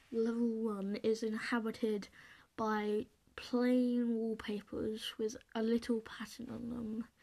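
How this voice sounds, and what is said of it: Deep, spooky voice. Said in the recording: “it's in a deep, spooky voice ... I'm trying to be creepy here!”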